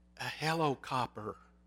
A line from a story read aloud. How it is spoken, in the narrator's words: answered the whispering voice